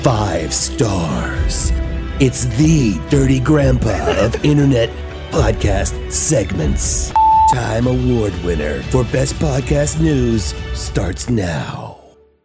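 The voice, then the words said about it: Sexy Moviefone-style announcer voice. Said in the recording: “Who was that sexy voice? ... We got Mr. Movie Phone for that.”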